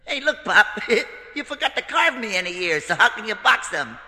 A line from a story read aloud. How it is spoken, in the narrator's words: Pinocchio laughed right in his father's face, and he said